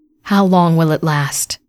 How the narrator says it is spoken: Namia sighed with resignation

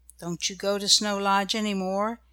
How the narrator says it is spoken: asked Nan in a low voice

